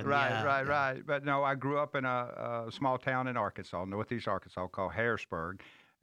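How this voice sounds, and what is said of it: American Southern accent. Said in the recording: “You're not from Scotland now, and people are going to love your accent as soon as you begin to speak”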